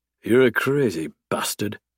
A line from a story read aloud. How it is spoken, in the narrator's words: Garrett grumbles